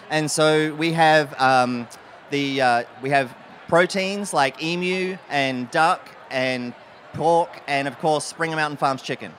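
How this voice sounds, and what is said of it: Australian accent. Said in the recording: “that's not a North Charleston accent. is from started his career in Adelaide, South Australia.”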